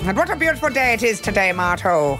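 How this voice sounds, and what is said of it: Put-on Irish accent. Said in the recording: “her Irish accent”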